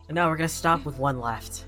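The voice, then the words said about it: Flat sarcastic delivery. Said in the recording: “Do I really sound that flat? ... I was being sarcastic.”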